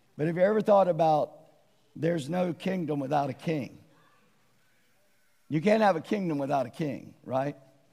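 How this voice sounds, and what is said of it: Raspy, strained voice. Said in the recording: “even with a raspy voice”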